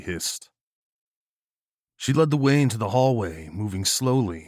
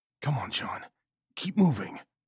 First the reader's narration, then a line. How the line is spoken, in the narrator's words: whispered